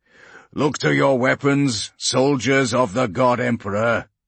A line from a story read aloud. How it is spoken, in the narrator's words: he called out, his powerful voice booming through the redoubts and sandbag embankments